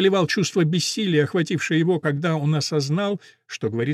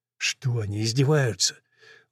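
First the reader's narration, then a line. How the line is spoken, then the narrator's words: Slurred mumbling. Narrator (Russian): Он бормотал, у него заплетался язык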